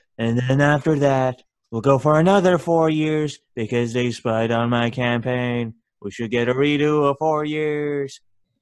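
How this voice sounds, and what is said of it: Imitates another person's voice. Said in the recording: “Let me get in my Trump voice... That's my Trump impression.”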